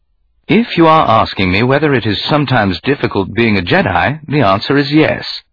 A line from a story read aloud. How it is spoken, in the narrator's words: he replied calmly